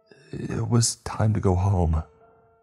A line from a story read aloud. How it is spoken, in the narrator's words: he finally replied in a shaky voice